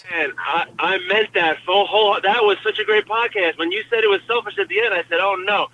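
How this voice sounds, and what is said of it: New York accent. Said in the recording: “it's nice to hear a New York accent”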